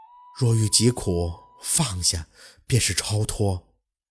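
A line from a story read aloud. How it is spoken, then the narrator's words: Soft murmuring. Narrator (Chinese): 嘴里轻声的念叨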